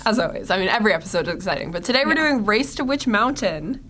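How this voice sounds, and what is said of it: Low, hoarse sick voice. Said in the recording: “Your voice is very low today. ... I'm coming off of a sickness. ... This is my sick voice. ... I'm coming off of a cough”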